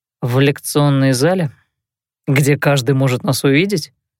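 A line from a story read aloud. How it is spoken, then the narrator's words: Skeptical young man's snort. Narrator (Russian): хмыкнул молодой человек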